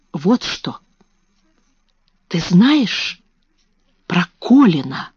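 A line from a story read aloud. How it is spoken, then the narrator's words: Whispering. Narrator (Russian): шепнула она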